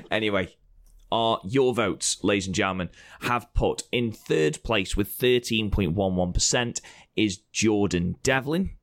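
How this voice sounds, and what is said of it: Croaky, hoarse voice. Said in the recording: “my voice is really croaky. My throat is absolutely killing me at the moment”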